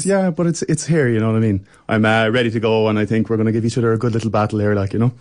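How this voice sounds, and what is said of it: Strong Irish accent. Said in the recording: “his accent's getting stronger to make it more authentically Irish ... the Irish accent”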